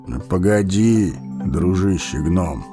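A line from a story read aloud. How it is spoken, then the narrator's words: Calm old man. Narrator (Russian): спокойно проговорил старец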